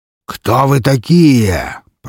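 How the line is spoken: Creature growling. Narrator (Russian): прорычал меховик

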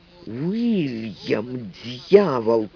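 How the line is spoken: Hissed. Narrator (Russian): прошипел он

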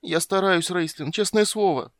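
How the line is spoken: Whining. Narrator (Russian): прохныкал Тассельхоф

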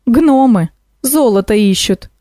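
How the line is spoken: Snort. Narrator (Russian): хмыкнул Кощей

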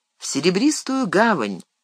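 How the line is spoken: Calm reply. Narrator (Russian): спокойно ответил Фродо

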